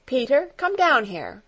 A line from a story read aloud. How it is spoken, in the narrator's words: called out, in a peremptory voice